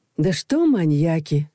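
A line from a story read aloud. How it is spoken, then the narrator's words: Sighing. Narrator (Russian): вздохнула Людмила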